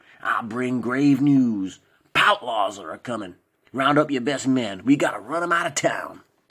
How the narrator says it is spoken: replied Norman forcefully in his affected cowboy drawl

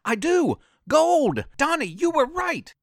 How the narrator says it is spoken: scream

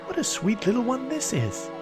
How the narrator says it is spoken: exclaim

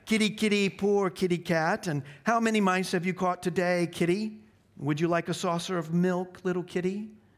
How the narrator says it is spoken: they surged round Aslan, jeering at him, saying

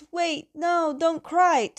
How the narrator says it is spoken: Zuko yells

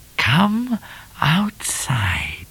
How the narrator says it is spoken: whispered Cat, too low for Miss Laura to hear

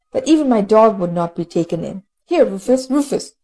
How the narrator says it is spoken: he exclaimed at last

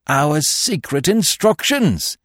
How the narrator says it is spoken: he cried

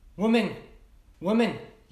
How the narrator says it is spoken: yelled the guard

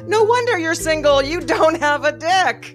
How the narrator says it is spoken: I exclaimed on the phone

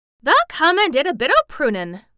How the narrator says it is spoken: cried Dickon

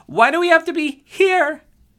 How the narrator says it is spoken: Victoria asked in a shrill voice

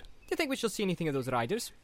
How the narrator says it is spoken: asked Pippin cheerfully

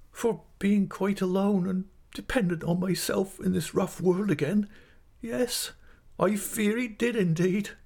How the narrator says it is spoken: sobbed my mother

